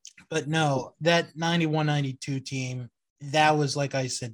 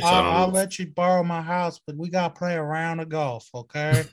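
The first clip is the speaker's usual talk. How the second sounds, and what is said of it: Good Charles Barkley impression. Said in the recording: “that's a pretty good Barkley impression.”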